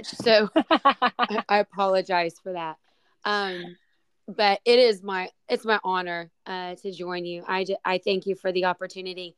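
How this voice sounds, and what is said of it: Hoarse, strained voice. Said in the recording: “sorry for my voice ... apparently I screamed a little too much”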